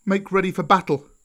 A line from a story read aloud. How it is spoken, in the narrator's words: cried Mowgli